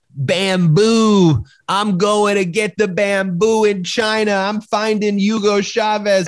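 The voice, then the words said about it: Imitates another person's voice, Southern. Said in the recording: “my Lynn Wood impression ... as a Southerner”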